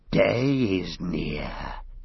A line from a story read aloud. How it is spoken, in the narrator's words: he whispered, as if day was something that might overhear him and spring on him